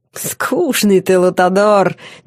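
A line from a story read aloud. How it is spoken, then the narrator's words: Roaring laughter. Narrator (Russian): демон захохотал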